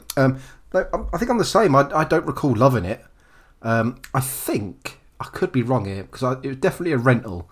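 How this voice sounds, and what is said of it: Hoarse, croaky throat. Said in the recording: “I've got a bit of a frog in my throat.”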